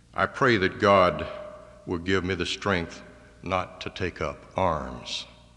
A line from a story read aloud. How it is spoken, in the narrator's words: calmly replied